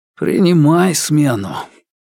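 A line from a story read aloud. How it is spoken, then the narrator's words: Hoarse voice. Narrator (Russian): хриплым голосом произнес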